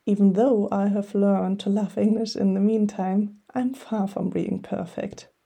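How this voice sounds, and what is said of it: Strong German accent in English. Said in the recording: “I speak English with such a German accent that my conversational partner would answer me in German”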